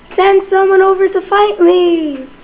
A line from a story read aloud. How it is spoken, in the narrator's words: called out